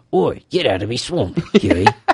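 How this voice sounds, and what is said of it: Gruff cartoon ogre character voice. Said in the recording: “Kind of sounds like I feel like Carl Urban could do a good Shrek”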